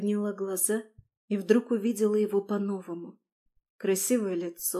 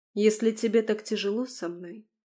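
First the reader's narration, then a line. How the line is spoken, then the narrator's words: Even, calm voice. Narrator (Russian): сказала я ровным голосом, удивляясь внутреннему спокойствию, которое вдруг снизошло на меня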